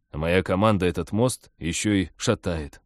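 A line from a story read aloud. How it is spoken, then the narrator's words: Gloomy. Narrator (Russian): мрачно продолжил аналогию Станислав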